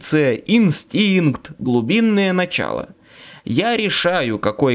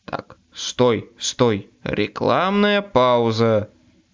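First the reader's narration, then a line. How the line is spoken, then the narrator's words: Groaning. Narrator (Russian): застонал двойник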